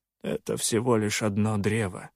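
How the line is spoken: Calm reply. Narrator (Russian): спокойно отозвался Соленый

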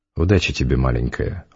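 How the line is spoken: Affectionate. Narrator (Russian): ласково сказал Завулон

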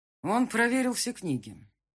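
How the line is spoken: Father, dull voice. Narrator (Russian): глухо сообщил отец

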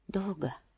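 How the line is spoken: Whisper. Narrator (Russian): прошептала она

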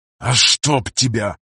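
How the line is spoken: Pained hiss after bumping. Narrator (Russian): прошипел пограничник, чувствительно приложившись к забытому Алу Дабом креслу

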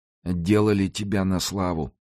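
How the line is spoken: Indifferent. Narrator (Russian): заметил он безразличным тоном

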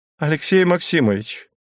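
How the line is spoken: Agitated voice. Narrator (Russian): Голос Андреевой прозвучал взволнованно

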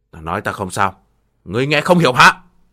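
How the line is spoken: Loud angry scolding. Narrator (Vietnamese): Thiên Bồng cất cao giọng quát mắng

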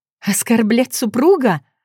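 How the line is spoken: Angry laugh. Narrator (Russian): Зло рассмеялась

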